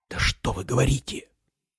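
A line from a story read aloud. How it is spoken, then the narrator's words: Angry whisper. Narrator (Russian): сердито зашептал генерал-полковник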